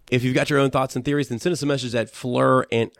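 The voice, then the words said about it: Congested, stuffy-nosed voice. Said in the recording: “because I have a cold.”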